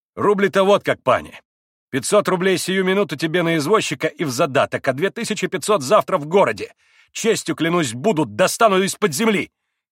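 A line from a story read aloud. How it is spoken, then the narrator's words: Shouting. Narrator (Russian): крикнул Митя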